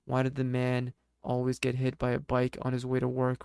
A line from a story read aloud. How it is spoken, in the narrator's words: Ray said